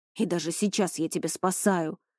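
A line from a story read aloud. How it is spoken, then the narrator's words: Growling. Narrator (Russian): зарычал он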